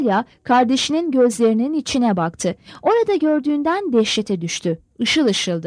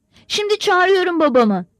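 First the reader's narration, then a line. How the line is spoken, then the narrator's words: Cried out loudly. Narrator (Turkish): diye haykırdı Natalya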